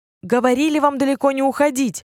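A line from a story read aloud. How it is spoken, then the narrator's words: Tigress shouting. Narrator (Russian): закричала тигрица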